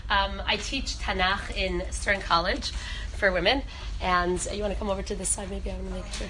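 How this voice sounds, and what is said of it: Hoarse, worn voice from a cold. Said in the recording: “I'm getting over a cold, so my voice is a little bit shot.”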